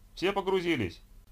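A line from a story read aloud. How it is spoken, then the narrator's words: Driver shouting. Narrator (Russian): крикнул водитель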